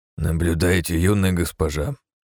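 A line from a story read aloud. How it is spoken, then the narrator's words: Quiet. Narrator (Russian): тихо проговорил Ранд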